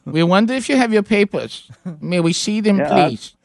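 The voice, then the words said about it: Put-on German accent. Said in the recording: “I've heard you for years do your German accent”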